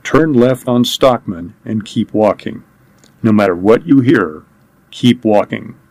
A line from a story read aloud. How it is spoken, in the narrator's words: he said as calmly as he could